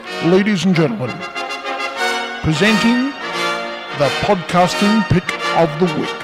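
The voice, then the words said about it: Super serious, pompous announcer voice. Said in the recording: “my super serious voice ... incredibly pompous and weird”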